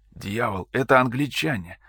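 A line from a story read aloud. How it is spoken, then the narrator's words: Hissing. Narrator (Russian): прошипел Ибрахим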